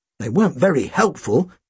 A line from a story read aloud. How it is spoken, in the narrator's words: Tim muttered